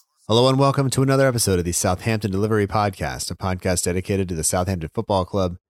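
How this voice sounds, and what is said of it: Slightly hoarse voice. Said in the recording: “My voice is a little bit hoarse, partially from being sick over the past week and still suffering a bit”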